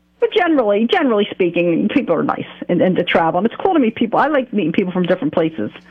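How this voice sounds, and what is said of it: New Jersey accent. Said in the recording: “Oh, you're from, like, Philly or New York, right? Yeah, I'm from Jersey ... With this accent.”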